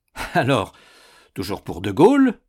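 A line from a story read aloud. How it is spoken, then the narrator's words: Laughing. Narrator (French): dit Basson en riant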